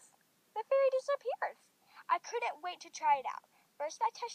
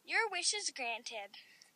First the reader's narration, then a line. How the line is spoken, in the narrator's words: the fairy said nervously